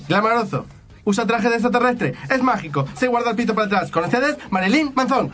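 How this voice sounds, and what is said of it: Put-on Spanish (Spain) accent. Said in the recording (Spanish): “Hacémelo con acento español ... Cuando éramos chicos era con acento español. ... Era con acento español.”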